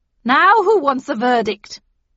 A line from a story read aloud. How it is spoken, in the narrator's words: asked the Queen triumphantly